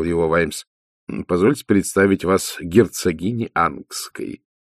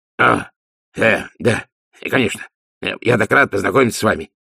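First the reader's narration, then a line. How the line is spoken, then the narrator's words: Flustered babbling. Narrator (Russian): пролепетал Ди, захваченный врасплох таким внушительным очарованием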